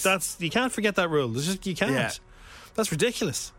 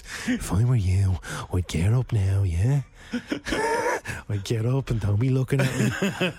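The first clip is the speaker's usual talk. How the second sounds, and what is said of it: Put-on nidge voice. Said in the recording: “in a nidge voice.”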